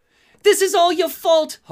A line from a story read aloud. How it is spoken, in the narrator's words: Harley shouts